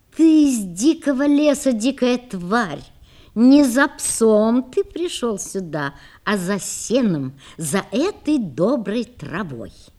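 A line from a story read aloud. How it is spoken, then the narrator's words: Laughing woman. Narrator (Russian): Женщина засмеялась, сказала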